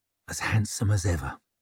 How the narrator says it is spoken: said softly

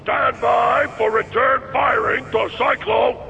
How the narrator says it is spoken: The bullhorn bawled

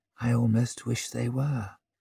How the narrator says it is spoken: he muttered

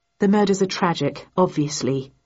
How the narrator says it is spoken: I replied

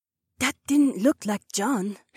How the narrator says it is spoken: Heiwan whispered

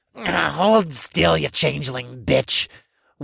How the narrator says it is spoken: One snarled

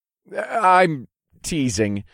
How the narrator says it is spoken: I laughed

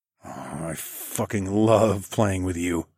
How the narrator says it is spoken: I growled

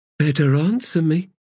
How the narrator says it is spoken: Blend said in a casual tone

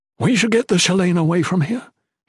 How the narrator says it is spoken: he gasped

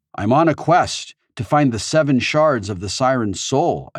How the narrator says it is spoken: I said

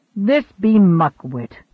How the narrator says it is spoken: grumbled Rufus in Latin

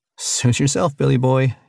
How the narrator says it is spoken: said with a forced laugh

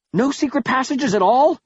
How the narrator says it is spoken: I exclaimed

